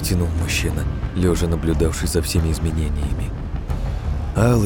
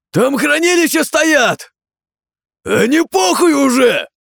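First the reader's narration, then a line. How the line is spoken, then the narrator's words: Soldier exclaiming. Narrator (Russian): воскликнул кто-то из военных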